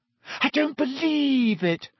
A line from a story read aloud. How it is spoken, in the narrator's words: Hermione wailed